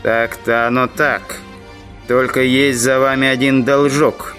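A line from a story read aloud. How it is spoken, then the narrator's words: Menacing male voice. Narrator (Russian): недобрым голосом начал индейец Джо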